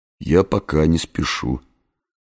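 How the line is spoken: Muttered. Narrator (Russian): пробормотал я

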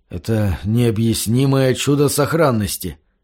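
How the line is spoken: Muttered. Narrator (Russian): пробормотал Гаррисон

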